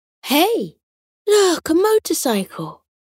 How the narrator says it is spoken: Potato exclaimed

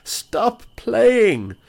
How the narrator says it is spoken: they cried

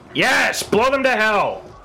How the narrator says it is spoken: From the smoke, you just hear Baldrick shout

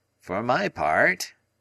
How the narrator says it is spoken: remarked Summerlee in his creaky, argumentative voice

